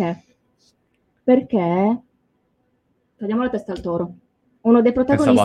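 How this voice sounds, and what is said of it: Usual voice. Nothing is said of it.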